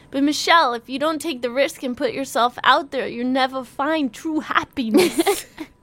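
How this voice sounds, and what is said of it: Odd put-on accent. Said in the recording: “What was that accent?”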